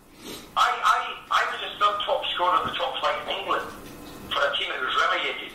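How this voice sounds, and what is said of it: Scottish Glasgow accent. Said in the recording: “you're quite clearly Scottish with your accent... I heard it from Glasgow”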